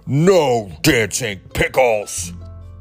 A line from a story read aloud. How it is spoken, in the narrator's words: Bear roared